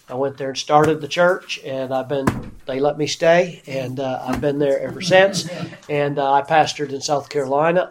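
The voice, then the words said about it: Slight Southern American accent. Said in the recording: “I do have a touch of a southern accent”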